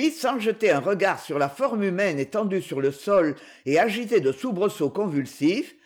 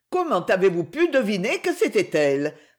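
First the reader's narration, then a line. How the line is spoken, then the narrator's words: Young boy exclaiming. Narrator (French): s'écria le jeune garçon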